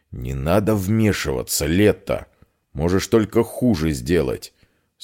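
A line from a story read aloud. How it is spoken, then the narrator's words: Stern. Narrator (Russian): строго сказал Эдвар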